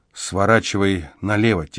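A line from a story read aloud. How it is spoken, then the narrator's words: Quiet advice. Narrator (Russian): тихо посоветовала Эмзел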